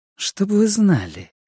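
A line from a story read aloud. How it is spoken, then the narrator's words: Ingratiating, insinuating. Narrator (Russian): сказала она вкрадчиво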